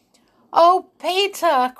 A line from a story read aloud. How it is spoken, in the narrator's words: cried Molly in despair